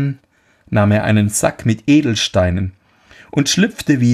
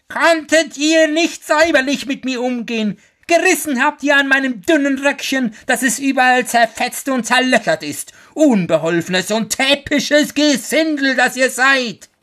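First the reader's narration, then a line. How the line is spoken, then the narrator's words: Dwarf's shrill scream. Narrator (German): der Zwerg sich von dem ersten Schrecken erholt hatte, schrie er mit seiner kreischenden Stimme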